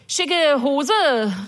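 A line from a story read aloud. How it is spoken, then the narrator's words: Calling back. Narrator (German): rief ich zurück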